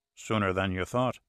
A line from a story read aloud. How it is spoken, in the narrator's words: said softly